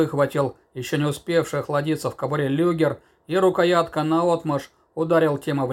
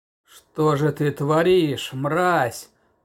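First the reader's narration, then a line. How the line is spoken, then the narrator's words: Growl. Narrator (Russian): Прорычал вышедший из ступора Шульц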